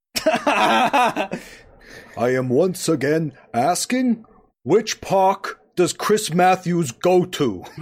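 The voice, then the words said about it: Bernie Sanders impression. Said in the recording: “your incredible Bernie impression”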